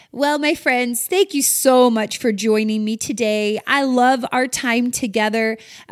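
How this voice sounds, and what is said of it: Slightly sick, low-energy voice. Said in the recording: “Maybe you can hear it in my voice. I'm a little under the weather today ... on Monday morning, I'll be more peppy.”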